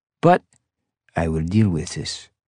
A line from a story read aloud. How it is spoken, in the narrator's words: he said, his voice perfectly calm